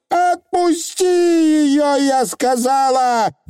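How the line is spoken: Screaming. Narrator (Russian): завопила аннаграмма

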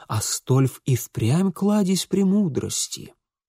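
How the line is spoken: Amazed whispering. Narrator (Russian): к великому изумлению слушателей, шептавших друг другу

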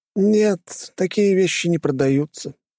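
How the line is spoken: Sighing. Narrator (Russian): вздохнул тот

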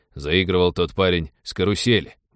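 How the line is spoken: Displeased grumbling. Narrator (Russian): буркнул пилот, которому внимание бандита к девушке очень не понравилось

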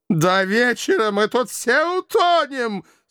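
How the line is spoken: Panicked wailing, former circus director. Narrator (Russian): Совершенно теряя голову, завопил бывший директор цирка

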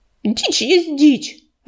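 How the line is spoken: Snapping back. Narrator (Russian): огрызнулась листвечка

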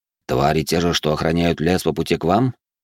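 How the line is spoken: Calm. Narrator (Russian): спокойно уточнил я

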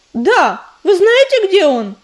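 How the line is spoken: Desperate cry. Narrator (Russian): в отчаянии выкрикнула она

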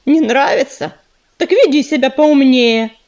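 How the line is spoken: Snapping retort. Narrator (Russian): огрызнулся ежевика

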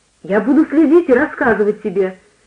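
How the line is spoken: Eager exclamation. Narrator (Russian): воскликнул я, загоревшись желанием помочь отцу

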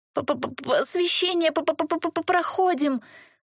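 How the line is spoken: Strained, forced words. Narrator (Russian): с трудом выдавил один из 6 незадачливых гулен

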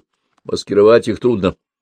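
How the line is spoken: Deep booming voice. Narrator (Russian): подполковник табло басил

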